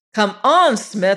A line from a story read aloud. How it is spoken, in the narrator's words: he shouted